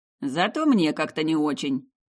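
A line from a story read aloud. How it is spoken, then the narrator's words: Grumbling. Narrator (Russian): проворчал Алистер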